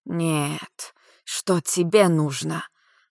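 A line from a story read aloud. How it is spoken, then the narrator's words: Angry hiss. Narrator (Russian): Зло прошипела девушка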